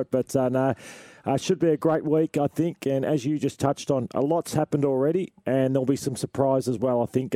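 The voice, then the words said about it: Raspy, partly lost voice. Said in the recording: “I'm a bit raspy ... I lost my voice a bit”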